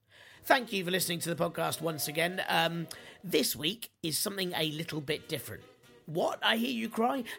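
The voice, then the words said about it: Hoarse, gravelly, croaky voice. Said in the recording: “as you can probably hear from my voice, a bit ill ... the weak croak ... so gravelly that if I were to call it hoarse ... no voice”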